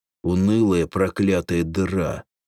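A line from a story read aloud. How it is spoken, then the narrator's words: Grumbling. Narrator (Russian): проворчал Эндрюс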